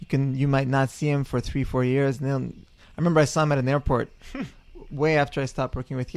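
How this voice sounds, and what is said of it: French-Canadian accent. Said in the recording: “my French-Canadian accent”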